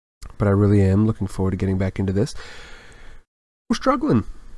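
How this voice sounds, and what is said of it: Congested voice from a cold. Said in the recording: “You might be able to hear it in my voice. ... recovering from a cold. Head cold.”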